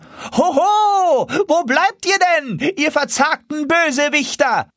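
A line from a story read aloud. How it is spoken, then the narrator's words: Called out loudly. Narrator (German): rief er mit lauter Stimme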